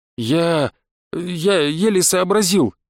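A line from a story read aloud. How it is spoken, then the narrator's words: Breathless strained. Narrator (Russian): выдавил все еще задыхающийся поэт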